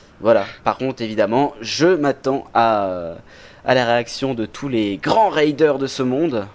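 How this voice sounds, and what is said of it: English accent in French speech. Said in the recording (French): “J'ai un accent anglais en ce moment”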